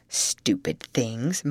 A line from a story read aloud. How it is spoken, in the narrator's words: muttered she